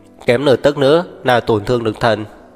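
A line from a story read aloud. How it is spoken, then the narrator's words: Clear cold female voice. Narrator (Vietnamese): thanh âm của nữ nhân trong trẻo nhưng lạnh lùng lại vang lên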